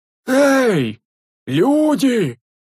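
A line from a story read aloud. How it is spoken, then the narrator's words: Hoarse echo from below. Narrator (Russian): Хриплым эхом доносилось снизу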